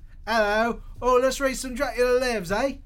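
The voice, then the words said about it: Put-on British accent. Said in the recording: “do his Brit impression”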